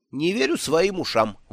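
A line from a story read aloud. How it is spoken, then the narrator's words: Exclaimed. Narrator (Russian): воскликнул Бедн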